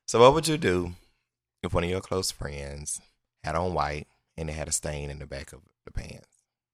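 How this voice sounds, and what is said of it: Hoarse voice, limited high range. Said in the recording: “My voice is a little hoarse. I can't get as high as I want to.”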